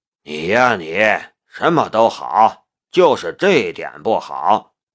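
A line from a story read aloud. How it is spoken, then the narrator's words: Fond, smiling. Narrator (Chinese): 宁远山笑着说道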